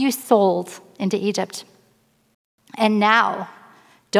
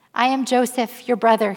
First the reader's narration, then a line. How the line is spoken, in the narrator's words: said